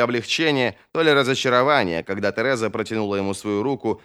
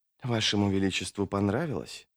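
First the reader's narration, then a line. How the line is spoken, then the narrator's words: Whisper. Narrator (Russian): прошептала Тереза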